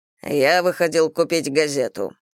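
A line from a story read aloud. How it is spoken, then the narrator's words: Muffled, hollow voice. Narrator (Russian): глухо произнес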